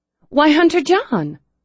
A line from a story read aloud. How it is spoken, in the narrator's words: said, smiling brightly, but at the same time an uneasiness settled in the pit of her stomach